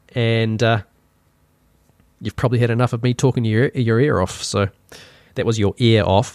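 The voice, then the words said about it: New Zealand accent. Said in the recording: “My Kiwi accent made that sound like rear.”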